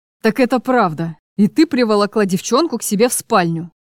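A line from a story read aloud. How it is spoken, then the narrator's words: Heavy cold voice through teeth. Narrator (Russian): процедил Чарослав свинцовым голосом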